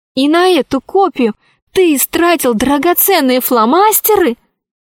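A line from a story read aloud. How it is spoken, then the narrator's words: Female exclamation. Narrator (Russian): воскликнула Алиса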